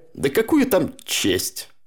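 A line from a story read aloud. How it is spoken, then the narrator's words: Grumbled. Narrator (Russian): пробурчал тот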